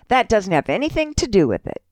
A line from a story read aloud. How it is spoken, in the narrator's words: he replied